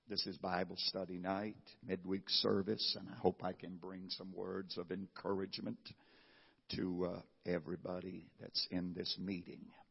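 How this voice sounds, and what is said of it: Hoarse, raspy voice. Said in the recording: “my voice is hoarse ... it affects my throat ... So if you think it's raspy”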